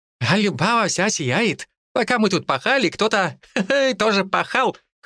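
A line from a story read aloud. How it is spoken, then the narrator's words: Laughing loudly. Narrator (Russian): хохотал Ли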